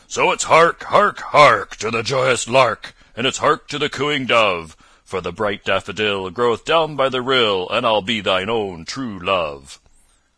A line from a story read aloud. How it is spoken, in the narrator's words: the holy friar, keeping on with the song, he joined in the chorus, and together they sang, or as one might say, bellowed